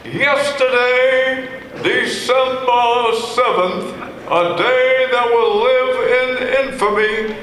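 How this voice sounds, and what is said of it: Franklin Roosevelt impression. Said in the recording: “I do a lot of voices. ... I do FDR, Franklin Roosevelt.”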